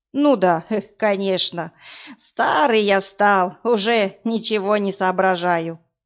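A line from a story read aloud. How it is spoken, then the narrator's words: Sudden giggle. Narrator (Russian): вдруг хихикнул мужчина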